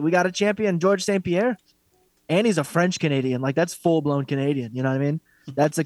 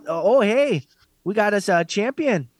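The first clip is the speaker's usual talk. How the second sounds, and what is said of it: Put-on Wisconsin-style accent. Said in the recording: “I can't do Canadian accent. ... It's a Wisconsin accent, basically.”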